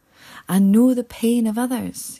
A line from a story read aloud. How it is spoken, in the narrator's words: he shouted